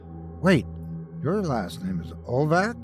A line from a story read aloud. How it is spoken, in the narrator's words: Derek saying to Boris in a worried tone